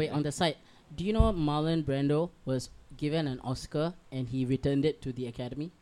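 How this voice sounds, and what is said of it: Usual voice. Nothing is said of it.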